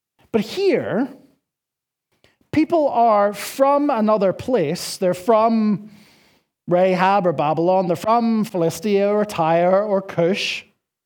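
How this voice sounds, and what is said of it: Northern Irish accent, chewed vowels. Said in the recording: “where are you from? Are you from Northern Ireland? My accent. ... I got blessed or cursed, depending on your perspective, with this Nordy accent. And so I chew on all of the vowels, and hopefully you can understand me.”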